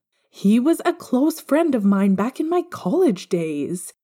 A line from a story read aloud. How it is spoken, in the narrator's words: James exclaimed